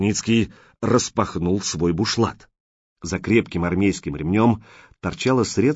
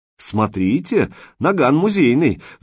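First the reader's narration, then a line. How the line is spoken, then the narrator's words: Laughing. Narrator (Russian): засмеялся человек со шрамом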